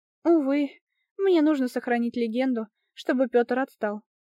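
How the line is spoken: Sighing. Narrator (Russian): вздохнула я

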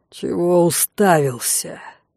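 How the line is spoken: Menacing werewolf growl. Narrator (Russian): с угрозой прорычал оборотень

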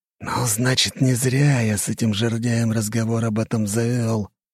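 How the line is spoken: Hiss. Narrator (Russian): прошипел Игнат

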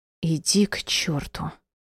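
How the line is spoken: Hissed with a soft sob. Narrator (Russian): прошипела, тихо всхлипнув

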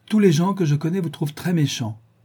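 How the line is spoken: Old woman exclaiming. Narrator (French): s'écria la vieille dame

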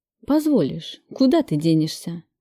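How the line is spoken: Gentle, affectionate. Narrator (Russian): ласково сказал ему Кравцов

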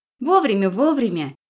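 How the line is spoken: Rapid chatter. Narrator (Russian): затараторила она

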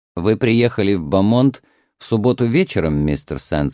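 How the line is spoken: Plain question. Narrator (Russian): спросил Кривич

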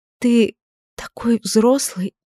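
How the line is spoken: Near-whisper murmur. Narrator (Russian): почти шепотом пробормотала Эдит

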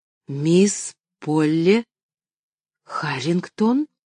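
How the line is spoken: Incantatory whisper. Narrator (Russian): Словно заклинание прошептал он

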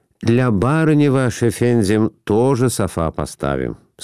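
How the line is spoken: Plain. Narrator (Russian): сказал армянин

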